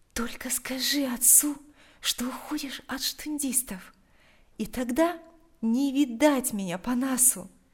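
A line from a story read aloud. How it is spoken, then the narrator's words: Quiet. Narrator (Russian): тихо произнесла она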